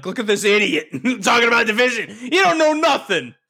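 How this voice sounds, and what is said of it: Put-on mocking accent. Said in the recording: “I don't know why they had that accent”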